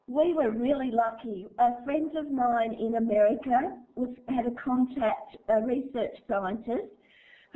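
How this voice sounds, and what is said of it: Noticeable regional accent. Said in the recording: “are you understanding my accent? ... Lots of people are saying I have an accent.”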